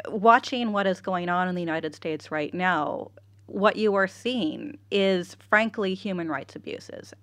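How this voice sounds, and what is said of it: American accent, somewhat mid-Atlantic. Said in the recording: “as you can probably tell from my accent, originally from the United States. ... I couldn't place your accent. ... American accents ... Originally California. ... a little bit mid-Atlantic of an accent”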